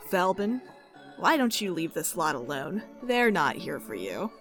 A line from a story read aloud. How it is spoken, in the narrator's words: He chuckles to himself and says